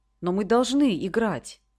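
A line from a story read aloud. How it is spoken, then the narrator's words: Exclaiming. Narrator (Russian): воскликнул он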